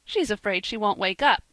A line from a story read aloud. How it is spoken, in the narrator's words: said Percy, laughing